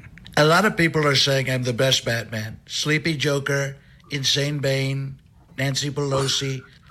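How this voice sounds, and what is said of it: Donald Trump impression as Batman. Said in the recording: “your impression of Donald Trump, but in a Batman mask”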